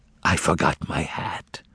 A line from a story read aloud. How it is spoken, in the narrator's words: whispered the bartender